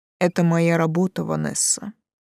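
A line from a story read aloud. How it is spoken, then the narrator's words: Cold. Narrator (Russian): так же холодно ответил Слоутер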